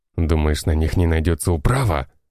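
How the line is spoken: Snort, bandit. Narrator (Russian): хмыкнул бандит

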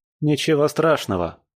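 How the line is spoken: Snort. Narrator (Russian): хмыкнул я

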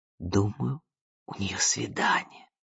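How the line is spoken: Whispered. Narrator (Russian): прошептала

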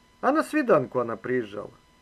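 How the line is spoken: Completely calm. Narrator (Russian): Майор совершенно спокойно сказал

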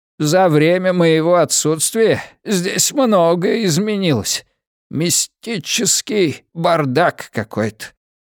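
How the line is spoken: Hoarse rasp. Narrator (Russian): прохрипел поэт

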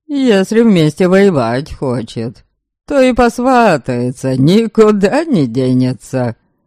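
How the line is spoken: Laughing young man. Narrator (Russian): смеялся один из братьев, 17-летний Святослав

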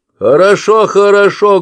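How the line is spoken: Loud speech. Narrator (Russian): громко сказал

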